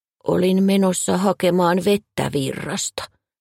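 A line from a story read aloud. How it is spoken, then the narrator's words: Mumbling. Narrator (Finnish): hän mumisi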